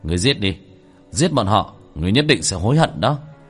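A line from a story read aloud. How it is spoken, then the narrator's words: Cold. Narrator (Vietnamese): Tiểu Thất lạnh lùng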